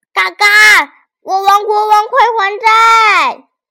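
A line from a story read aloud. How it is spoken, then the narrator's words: Shouting at the top of lungs. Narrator (Chinese): 扯着嗓子大喊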